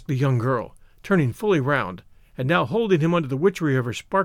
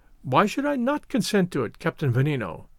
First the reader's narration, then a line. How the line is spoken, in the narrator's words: answered Augustus, with a peal of laughter